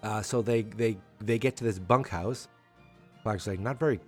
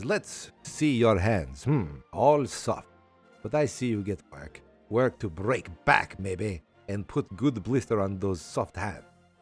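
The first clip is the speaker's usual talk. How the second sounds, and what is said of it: Put-on French or Russian accent. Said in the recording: “I don't know if this guy should be French or Russian. The accent I'm choosing”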